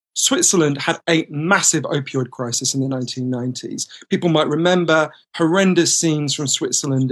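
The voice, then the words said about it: British English accent. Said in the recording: “as you can tell from my voice, British”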